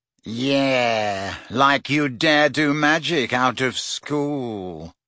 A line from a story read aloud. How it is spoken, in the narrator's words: sneered Malfoy